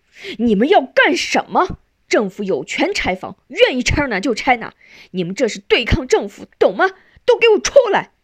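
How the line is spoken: Hurried, stern, harsh. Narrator (Chinese): 马小怀风风火火地赶来了，冲少元他们厉声说

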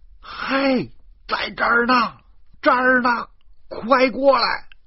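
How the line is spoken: Shouting. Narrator (Chinese): 我的喊声

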